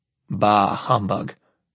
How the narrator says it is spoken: I sigh

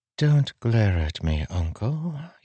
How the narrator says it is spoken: Jasnah said softly

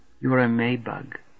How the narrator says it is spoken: she whispers, a sniffling, still girl

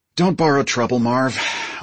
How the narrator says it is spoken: I sighed

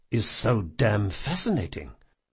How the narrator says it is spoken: Locke muttered to himself in Vajran

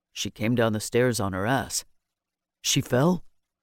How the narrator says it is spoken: Quietly, Keeler said

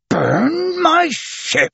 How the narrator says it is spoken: exclaimed Captain Speedy, who had difficulty getting the words out of his mouth any more

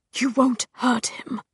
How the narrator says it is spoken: whispered Hodge

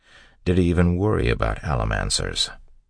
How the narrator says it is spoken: Ellen sighed

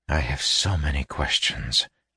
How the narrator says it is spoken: he whispered

